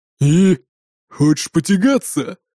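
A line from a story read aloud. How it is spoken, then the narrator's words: Growled by big man. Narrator (Russian): прорычал здоровяк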